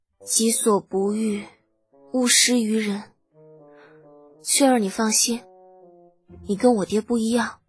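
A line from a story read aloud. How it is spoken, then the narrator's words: Numb, flat voice. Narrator (Chinese): 程茵茵声音有些麻木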